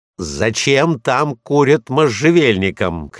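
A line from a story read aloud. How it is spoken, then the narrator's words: Shouting. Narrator (Russian): крикнул я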